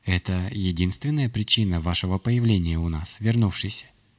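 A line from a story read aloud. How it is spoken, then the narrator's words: Quiet question. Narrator (Russian): негромко спросил Хранитель пространств Черного Камня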